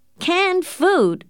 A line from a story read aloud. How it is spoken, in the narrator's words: shouted a man